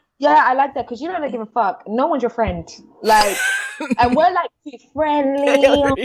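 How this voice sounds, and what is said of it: Usual voice. Nothing is said of it.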